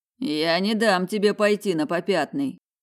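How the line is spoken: Joking yet firm threat. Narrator (Russian): пригрозил Майк шутливым тоном, но твердость все равно не смогла спрятаться, так и сквозила в словах

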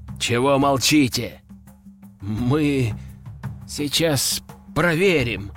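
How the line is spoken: Nervous mumbling. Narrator (Russian): замямлил начальник штаба

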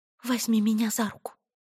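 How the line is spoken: Anxious whisper. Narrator (Russian): взволнованно прошептала Этти

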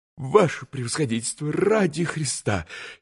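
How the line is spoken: Frightened plea. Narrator (Russian): испуганно остановил его еще раз штабс-капитан

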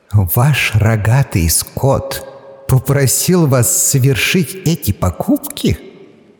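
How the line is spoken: Laughing. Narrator (Russian): рассмеялись

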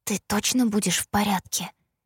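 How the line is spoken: Whispered question. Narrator (Russian): шепотом уточнила я

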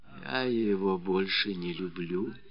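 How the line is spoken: Whispered. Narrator (Russian): прошептала Феня

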